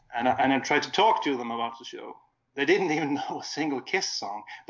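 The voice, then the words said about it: Swedish accent. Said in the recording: “my Swedish accent”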